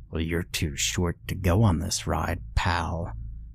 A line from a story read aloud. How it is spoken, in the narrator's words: growled, sounding anything but pally